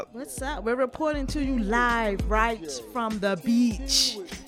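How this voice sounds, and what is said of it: Put-on Caribbean accent. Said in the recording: “Are you doing a Caribbean accent?”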